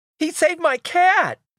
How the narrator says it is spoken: screams at the top of her lungs

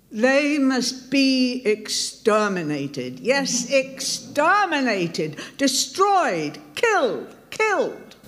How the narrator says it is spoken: Ack shouting

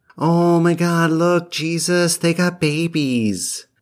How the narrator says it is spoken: Thaddeus cooed

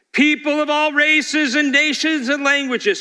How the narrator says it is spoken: Then a herald shouted out

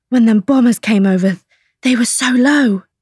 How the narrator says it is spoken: George said breathlessly

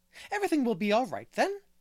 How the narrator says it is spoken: cried the rosy lady jubilantly

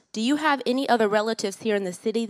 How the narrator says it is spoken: asked

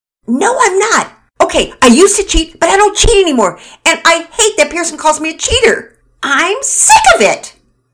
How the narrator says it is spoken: Penelope shrieked

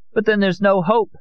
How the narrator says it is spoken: Amparo cried

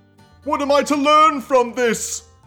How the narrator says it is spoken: I bellowed across the chamber

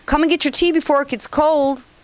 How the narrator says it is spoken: Bobby called out to me from the kitchen

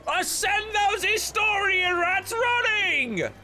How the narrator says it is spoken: a reenactor hoots and yells

